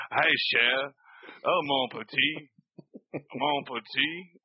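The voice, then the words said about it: Exaggerated Cajun accent. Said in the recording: “his terrible Cajun accent.”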